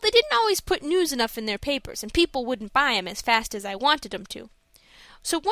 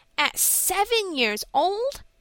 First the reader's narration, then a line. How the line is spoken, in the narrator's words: exclaimed Frank in amazement